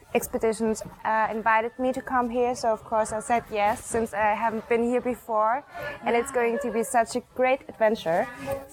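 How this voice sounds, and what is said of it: German accent. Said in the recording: “you're from Germany ... I just love hearing your accent. It's so pretty, so gorgeous.”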